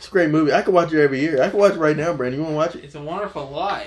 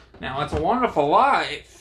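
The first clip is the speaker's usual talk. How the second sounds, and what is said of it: Imitates another person's voice, poorly. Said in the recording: “that is a horrible impression of James Stewart”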